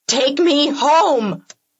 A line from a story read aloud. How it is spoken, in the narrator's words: I scream